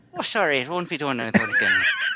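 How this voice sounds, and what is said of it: Irish accent. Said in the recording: “You got to do an Irish accent... Finally, somebody that can do an Irish accent.”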